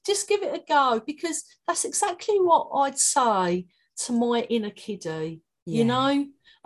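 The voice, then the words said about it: Cockney accent. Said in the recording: “My Cockney accent”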